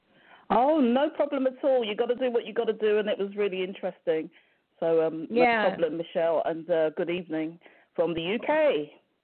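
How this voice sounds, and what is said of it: British accent. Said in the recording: “my UK friend ... it's the accent. I love the accent”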